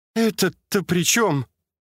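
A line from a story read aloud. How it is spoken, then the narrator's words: Near groan. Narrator (Russian): чуть не простонала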